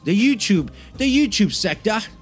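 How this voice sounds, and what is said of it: Fake English accent, unconvincing. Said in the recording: “my fake English accent there... it's pretty good, by the way... it's a horrible accent... it's not even close at all”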